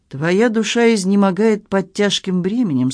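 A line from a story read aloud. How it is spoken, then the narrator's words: Plain. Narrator (Russian): сказал он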